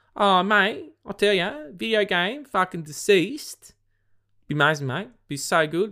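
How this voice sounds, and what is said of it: Strong Australian accent. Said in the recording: “that was so Australian of me. I'm tired, so my Australian accent comes out.”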